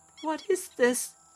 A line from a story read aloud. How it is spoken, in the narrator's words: whimpered